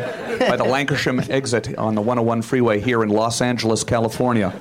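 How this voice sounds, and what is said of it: Canadian accent. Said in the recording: “I haven't lost the Canadian accent.”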